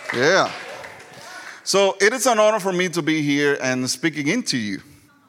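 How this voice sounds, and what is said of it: Strong Puerto Rican Southern accent. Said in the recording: “You're going to hear a strong accent, as you can tell. So I'm Puerto Rican and Southern.”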